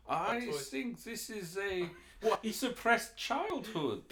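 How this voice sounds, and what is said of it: Put-on German accent, psychiatrist impression. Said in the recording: “Can you not do a German accent? ... I was doing Freud”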